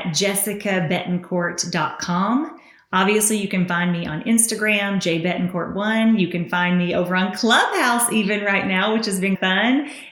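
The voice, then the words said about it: Speaker's own distinctive accent. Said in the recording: “this crazy voice of mine ... We love your accent.”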